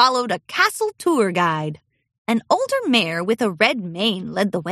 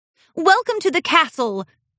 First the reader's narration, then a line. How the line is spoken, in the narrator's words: Princess Cadence called out